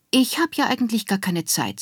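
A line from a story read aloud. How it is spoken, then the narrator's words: Sighing. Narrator (German): Seufzer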